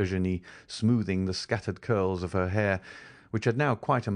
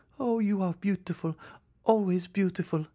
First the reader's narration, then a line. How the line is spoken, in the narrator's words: cried Louise